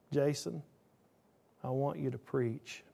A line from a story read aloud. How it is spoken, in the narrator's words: the whisper of God saying